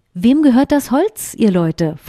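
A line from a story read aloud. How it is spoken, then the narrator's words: Plain question. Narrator (German): fragte der König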